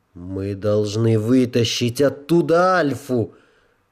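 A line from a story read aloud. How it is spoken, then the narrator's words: Angry growl. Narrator (Russian): прорычала гневно Джоанна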